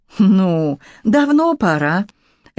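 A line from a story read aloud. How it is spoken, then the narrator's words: Relieved sigh. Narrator (Russian): Лилька облегченно вздохнула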